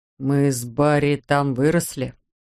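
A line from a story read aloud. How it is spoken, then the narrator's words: Muttered. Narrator (Russian): пробормотал ее зять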